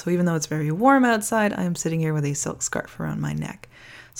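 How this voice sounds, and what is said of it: Slightly creaky, sore-throated voice. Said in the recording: “I've got a sore throat ... if I'm a little creaky in my voice”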